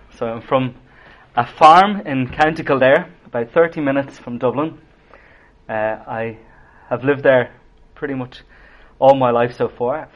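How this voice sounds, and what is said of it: Irish accent, not Belfast. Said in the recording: “from my accent, you'll tell I'm not from Belfast”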